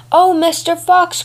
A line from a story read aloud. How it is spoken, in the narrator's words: cried the cat